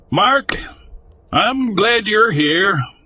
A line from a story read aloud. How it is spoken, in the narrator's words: Sarah called out with a warm smile